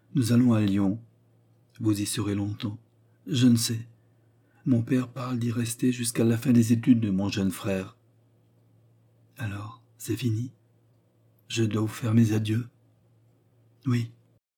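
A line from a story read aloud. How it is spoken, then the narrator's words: Tearful muffled murmur. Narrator (French): murmura en plongeant sa tête dans la malle, comme pour y ensevelir ses larmes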